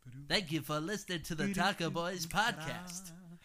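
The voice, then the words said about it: Radio announcer voice. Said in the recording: “put on my radio voice or my Regis Philbin voice”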